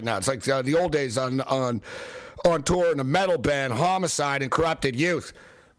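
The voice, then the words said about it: Hoarse, worn-out voice. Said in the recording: “my voice is shot, but it's actually better when it's shot”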